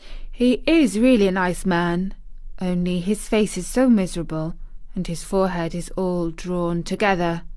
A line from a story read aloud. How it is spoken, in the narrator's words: said Mary solemnly